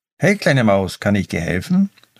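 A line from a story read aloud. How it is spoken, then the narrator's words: Plain question. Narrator (German): fragte Mia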